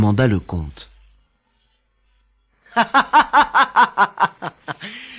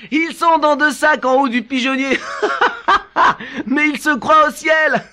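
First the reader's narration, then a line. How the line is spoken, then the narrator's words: Laughing reply. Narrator (French): répondit le maître voleur en riant de sa farce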